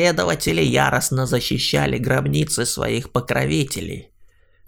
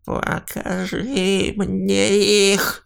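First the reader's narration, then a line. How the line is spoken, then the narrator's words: Creaky rasp. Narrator (Russian): проскрипел он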